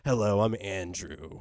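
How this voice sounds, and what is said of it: Smooth radio announcer voice. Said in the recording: “nice and easy ... And smooth, like a radio voice ... Podcast voice”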